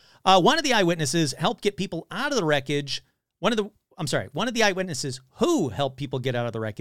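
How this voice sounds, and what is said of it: Usual voice. Nothing is said of it.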